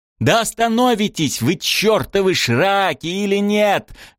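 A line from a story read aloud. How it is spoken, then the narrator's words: Yelling. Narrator (Russian): заорал Шем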